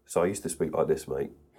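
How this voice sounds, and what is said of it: Broader British accent. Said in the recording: “the sheer fact that you're British ... my accent's kind of softened over the years”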